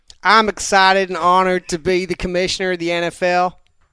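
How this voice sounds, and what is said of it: Put-on Texan American accent. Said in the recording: “an entertaining American accent ... Basically Texan ... you're also from Southern Texas”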